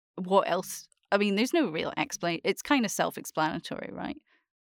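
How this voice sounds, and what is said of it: Scottish accent. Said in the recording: “Born in Bundy, have a Scottish accent.”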